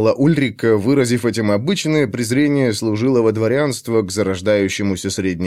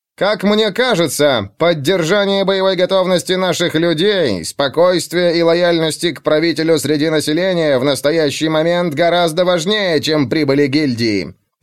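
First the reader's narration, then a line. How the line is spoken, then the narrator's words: Shrill voice, prince. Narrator (Russian): произнес князь пронзительным голосом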